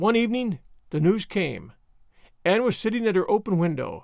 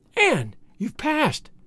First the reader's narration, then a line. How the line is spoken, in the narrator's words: she cried